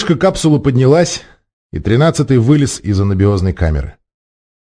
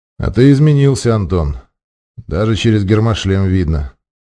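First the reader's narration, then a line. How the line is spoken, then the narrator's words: Calm. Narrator (Russian): спокойно произнес майор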